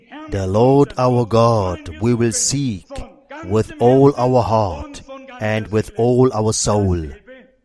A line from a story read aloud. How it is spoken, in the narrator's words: solemnly pledged